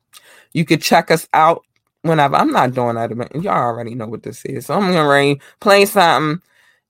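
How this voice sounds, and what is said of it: Strained, failing voice. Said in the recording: “I'm losing my voice a lot lately.”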